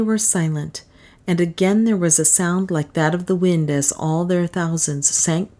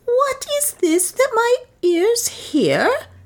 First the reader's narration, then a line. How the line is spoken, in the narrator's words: he cried